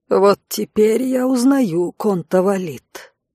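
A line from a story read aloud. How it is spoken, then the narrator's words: Creaky caustic voice. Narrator (Russian): проскрипел из угла въедливый голос брата Турида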